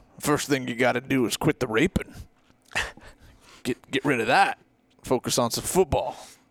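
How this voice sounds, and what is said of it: Put-on Texas cowboy accent. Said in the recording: “Did I get the accent pretty close? ... like cattle herder from Lubbock”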